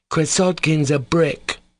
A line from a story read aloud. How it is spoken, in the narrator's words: cried a third voice